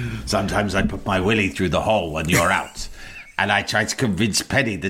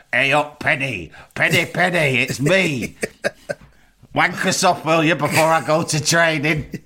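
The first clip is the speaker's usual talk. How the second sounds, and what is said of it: Imitates another person's voice. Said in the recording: “my best Roy impression”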